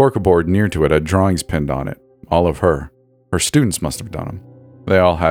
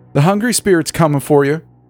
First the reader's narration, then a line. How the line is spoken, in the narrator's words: the kid yelled